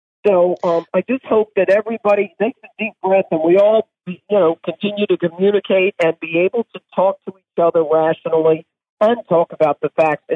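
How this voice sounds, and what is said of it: Hoarse, strained voice. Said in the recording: “I am losing my voice again.”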